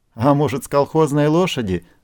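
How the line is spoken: Laughing. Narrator (Russian): засмеялся Костя

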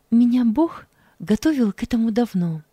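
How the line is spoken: Calm. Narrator (Russian): спокойно произнесла она

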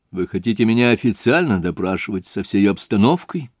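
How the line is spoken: Sharp question. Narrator (Russian): резко спросил Раскольников

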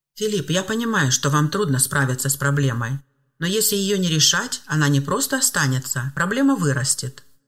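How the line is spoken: Calm, unmocking man. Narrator (Russian): спокойно и без тени насмешки напомнил мужчина

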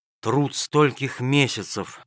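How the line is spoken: Sigh. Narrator (Russian): вздохнул он

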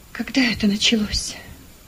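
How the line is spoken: Whispered question. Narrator (Russian): спросил шепотом

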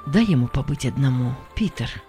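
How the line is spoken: Gentle. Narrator (Russian): сказал почтальон мягко

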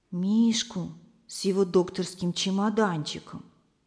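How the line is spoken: Quiet. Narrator (Russian): тихо сказала Лиза

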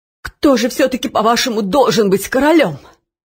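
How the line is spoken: Altered, muffled voice. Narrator (Russian): спросил Нушрок изменившимся почти глухим голосом

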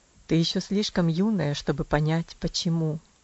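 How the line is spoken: Sad tone. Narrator (Russian): ответил он тем же печальным тоном

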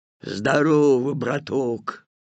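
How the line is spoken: Hoarse wheeze. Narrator (Russian): прохрипел волк

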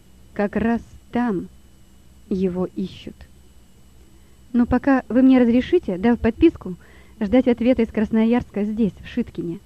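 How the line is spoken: Plain. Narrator (Russian): спросил Лева

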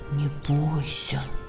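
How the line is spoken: Whisper. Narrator (Russian): прошептал он ему

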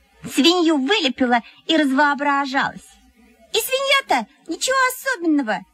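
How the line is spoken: Squeaky. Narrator (Russian): пропищала Мухина

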